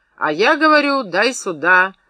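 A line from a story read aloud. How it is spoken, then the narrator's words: Barked. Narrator (Russian): рявкнул Юргин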